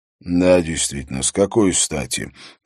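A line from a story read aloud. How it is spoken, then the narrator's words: Muttering. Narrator (Russian): пробормотал Харри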